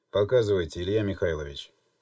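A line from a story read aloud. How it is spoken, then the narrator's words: Calm reply. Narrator (Russian): спокойно ответил старший майор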